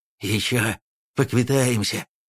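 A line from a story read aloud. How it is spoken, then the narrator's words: Panting whisper. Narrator (Russian): Он успел, тяжело дыша, прошептать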